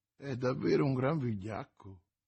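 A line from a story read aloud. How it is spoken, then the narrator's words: Murmured. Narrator (Italian): mormorò l'oste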